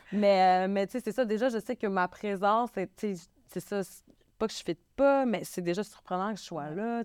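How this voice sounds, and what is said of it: Québécois French accent. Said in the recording (French): “Tu sais que je suis québécoise. Je sais que je suis une femme keb qui arrive avec un accent”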